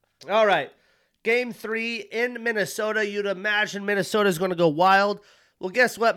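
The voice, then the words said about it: Strained, worn-out voice. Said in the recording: “My voice is on its last leg right here.”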